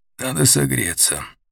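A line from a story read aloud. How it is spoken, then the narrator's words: Hoarse. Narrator (Russian): объяснил хрипло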